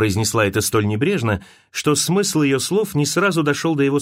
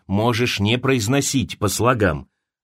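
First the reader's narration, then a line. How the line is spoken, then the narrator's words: Irritated interruption. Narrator (Russian): раздраженно оборвал он ее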